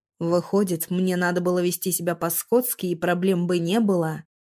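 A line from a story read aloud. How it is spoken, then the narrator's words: Growl. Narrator (Russian): прорычал Градов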